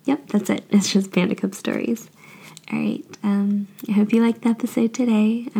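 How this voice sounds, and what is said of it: Slightly sick, weird-sounding voice. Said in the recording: “I'm a little bit sick, so if my voice sounds a little bit weird, that's why.”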